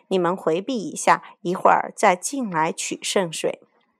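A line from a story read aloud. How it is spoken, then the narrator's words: Lowered voice. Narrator (Chinese): 悟空压低了嗓子说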